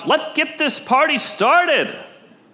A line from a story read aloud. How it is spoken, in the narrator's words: that shepherd … he celebrates and shouts